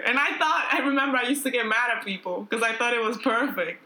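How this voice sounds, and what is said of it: Dominican Spanish-influenced accent. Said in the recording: “I'm Dominican ... If you think my accent is bad now”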